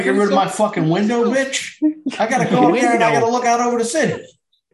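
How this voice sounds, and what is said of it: Thick Chicago accent. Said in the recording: “A thick Chi-Town accent just comes out fucking so hard.”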